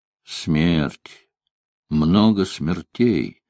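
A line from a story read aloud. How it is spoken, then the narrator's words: Mumbled. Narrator (Russian): пробормотал Рузвельт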